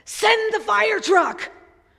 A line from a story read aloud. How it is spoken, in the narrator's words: a voice on the other end of the line frantically said